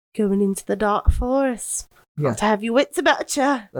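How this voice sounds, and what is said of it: Poor put-on British accent. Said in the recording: “my really poor British accent”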